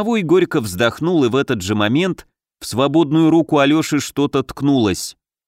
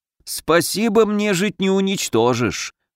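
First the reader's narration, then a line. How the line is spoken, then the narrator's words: Muffled house spirit. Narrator (Russian): глухо отозвался домовой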